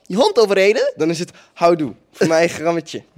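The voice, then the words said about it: Put-on Dutch Holland accent. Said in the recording (Dutch): “een Hollands accent? ... maar dat is echt een, een accuraat Hollandse accent”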